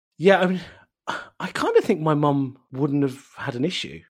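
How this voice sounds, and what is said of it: Usual voice. Nothing is said of it.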